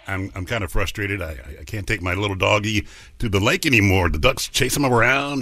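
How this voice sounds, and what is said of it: Deep male voice. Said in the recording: “sexy man with a deep voice”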